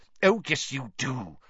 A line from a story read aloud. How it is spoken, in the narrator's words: said Professor McGonagall irritably